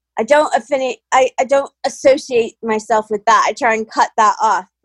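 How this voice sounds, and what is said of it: American accent. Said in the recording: “sound American”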